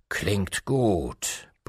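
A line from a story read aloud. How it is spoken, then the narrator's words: Santa's gruff grumble. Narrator (German): brummte der Weihnachtsmann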